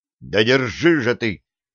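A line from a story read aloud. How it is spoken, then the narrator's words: Growled. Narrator (Russian): рыкнул на варяга Середин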